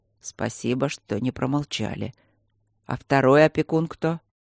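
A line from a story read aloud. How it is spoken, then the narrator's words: Upset mumble. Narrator (Russian): Расстроенно пробормотал Синюсов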